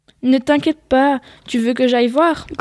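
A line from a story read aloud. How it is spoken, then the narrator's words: Growled. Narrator (French): grogna Paul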